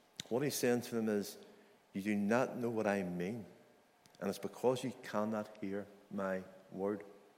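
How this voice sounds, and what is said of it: Non-American accent. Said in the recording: “it's obvious by my accent that I'm not from America.”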